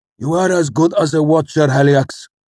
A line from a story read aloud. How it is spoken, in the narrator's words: snapped